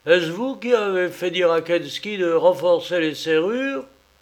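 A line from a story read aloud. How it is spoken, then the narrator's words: Exclaimed. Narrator (French): s'écria-t-il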